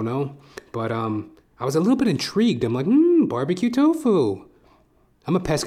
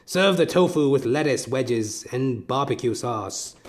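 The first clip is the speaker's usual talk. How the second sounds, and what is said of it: Menacing fake British accent. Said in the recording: “menacingly fake British accent”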